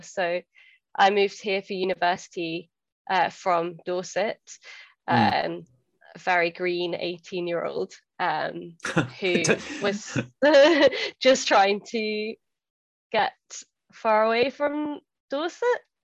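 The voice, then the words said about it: Non-Glaswegian accent. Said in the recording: “I am obviously not from Glasgow, as you can tell from my accent”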